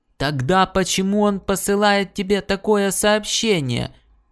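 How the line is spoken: Emperor's thundering voice. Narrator (Russian): прогремел император

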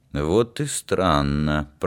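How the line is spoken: Mutter. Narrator (Russian): пробормотал Олег Борисович

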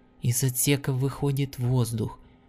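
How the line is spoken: Whisper. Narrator (Russian): шепнула Лианна

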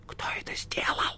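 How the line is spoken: Whispered repeat. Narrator (Russian): шепотом повторил Левий

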